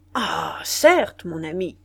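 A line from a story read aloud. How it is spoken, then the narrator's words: Exclaimed. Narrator (French): s'écria Berthereau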